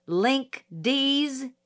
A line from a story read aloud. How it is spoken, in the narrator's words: he yelled